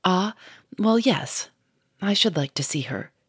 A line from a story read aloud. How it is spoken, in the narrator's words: said in a decided tone